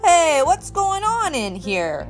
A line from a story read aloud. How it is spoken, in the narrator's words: a voice boomed